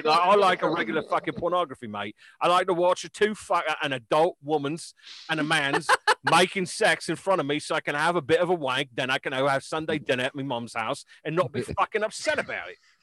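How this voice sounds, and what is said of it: Put-on Cockney accent. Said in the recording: “That was my best Cockney accent.”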